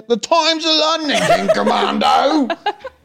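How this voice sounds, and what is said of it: Put-on Cockney accent. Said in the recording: “Can't say it with a Cockney accent. ... that was a good one.”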